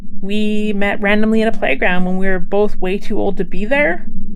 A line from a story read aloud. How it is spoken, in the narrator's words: sighed deeply as reality returned and fear faded